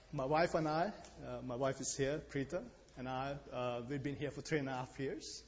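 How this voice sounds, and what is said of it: Indian English accent. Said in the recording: “you'll remember my accent... I'm from India”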